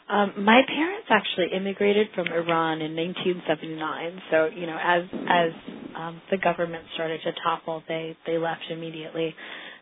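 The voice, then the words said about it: Raspy voice from a cold. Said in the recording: “excuse my cold. I have a bit of a raspy voice, and it might get a little worse.”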